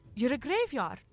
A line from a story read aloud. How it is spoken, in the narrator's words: she exclaimed in hope and relief